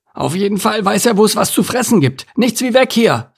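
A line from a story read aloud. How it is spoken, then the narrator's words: Called out. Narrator (German): rief Anton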